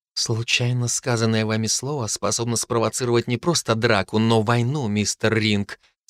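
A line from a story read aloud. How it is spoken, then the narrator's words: Quiet. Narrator (Russian): сказала Софи тихо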